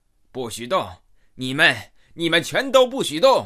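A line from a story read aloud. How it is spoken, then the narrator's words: Loud frantic shouting. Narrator (Chinese): 他 大声的喊道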